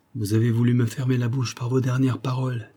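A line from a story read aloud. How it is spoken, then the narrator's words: Plain. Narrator (French): dit-il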